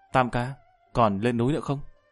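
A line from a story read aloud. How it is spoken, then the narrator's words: Whispered question. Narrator (Vietnamese): Tư Đức nhịn không được thì thầm hỏi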